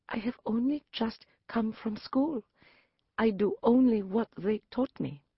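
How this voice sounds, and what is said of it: Very small, timid voice. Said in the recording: “in my smallest voice.”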